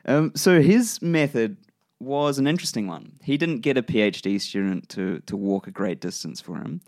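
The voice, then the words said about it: New Zealand accent. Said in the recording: “my New Zealand accent. I'll butcher most words as I come across them.”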